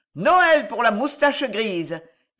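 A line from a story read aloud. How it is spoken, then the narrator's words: Yelping child. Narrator (French): glapit un gamin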